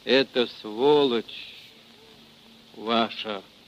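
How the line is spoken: Gurgling through blood. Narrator (Russian): Глотая кровь, заговорил булькающим голосом

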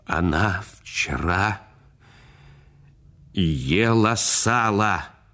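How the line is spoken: Trembling voice. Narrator (Russian): дрожащим голосом сказал, обращаясь к отцу

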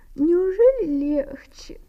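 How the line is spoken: Sleepy question. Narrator (Russian): спросила она сонно

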